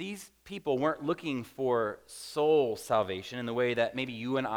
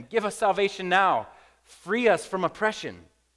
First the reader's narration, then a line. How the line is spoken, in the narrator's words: they're shouting at him